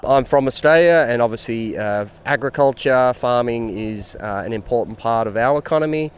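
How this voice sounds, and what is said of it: Australian accent. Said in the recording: “The gentleman I sat down and had a great time with was from Australia ... I just couldn't resist interviewing him, mainly because of his accent.”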